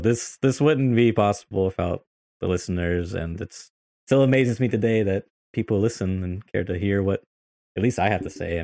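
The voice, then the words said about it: American accent. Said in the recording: “I got the K Kona American accent”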